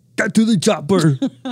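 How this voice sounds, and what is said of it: Arnold Schwarzenegger impression. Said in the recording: “your Arnold Schwarzenegger impression... it's really good”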